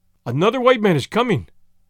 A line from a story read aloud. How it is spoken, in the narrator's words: cried